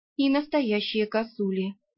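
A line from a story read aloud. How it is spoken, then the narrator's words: Gloomy agreement. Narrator (Russian): мрачно поддакнула я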